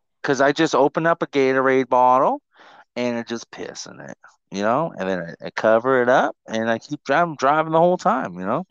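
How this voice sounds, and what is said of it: Put-on accent. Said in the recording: “I don't know why I'm oh. doing the accent now.”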